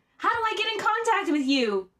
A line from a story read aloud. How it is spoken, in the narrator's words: Cage nearly screamed